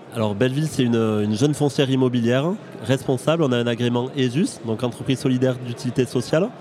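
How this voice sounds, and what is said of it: Southern French accent from Aveyron. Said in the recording (French): “un bel accent du sud, j'ai cru comprendre que c'était un accent de l'Aveyron”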